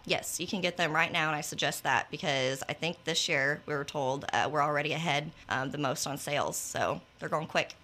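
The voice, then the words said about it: Shaky, nervous voice. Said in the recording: “my voice is shaking right now”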